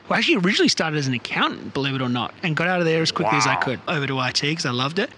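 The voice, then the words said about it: Australian accent. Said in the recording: “I'm originally from Australia. You can probably hear from my accent”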